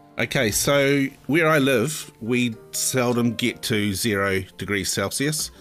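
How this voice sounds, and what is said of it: New Zealand accent. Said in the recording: “we've missed your wonderful Kiwi accent.”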